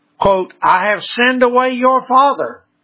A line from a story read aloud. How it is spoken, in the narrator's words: she cried